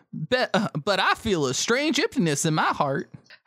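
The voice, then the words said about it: Put-on Southern belle accent. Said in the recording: “I think I can do this in an accent ... I want to do Southern”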